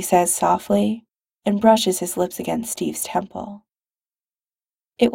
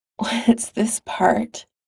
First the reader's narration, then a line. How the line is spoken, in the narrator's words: Steve asks shakily